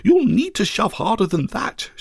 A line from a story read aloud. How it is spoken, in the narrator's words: exclaimed